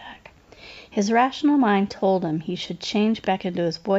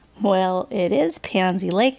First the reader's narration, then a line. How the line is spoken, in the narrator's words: I offered